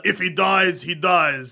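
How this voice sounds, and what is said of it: Put-on Russian accent. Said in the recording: “that was a Russian accent”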